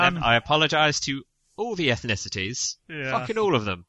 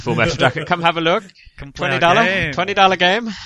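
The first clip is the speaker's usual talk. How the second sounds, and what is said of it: Put-on stereotyped ethnic accent. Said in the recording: “that racist accent”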